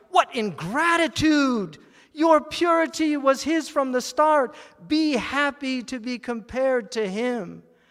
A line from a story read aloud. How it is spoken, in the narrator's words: Copper cried